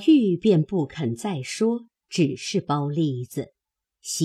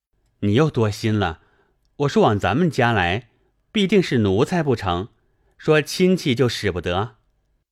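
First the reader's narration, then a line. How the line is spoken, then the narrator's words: Hasty laugh. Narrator (Chinese): 宝玉听了，忙笑道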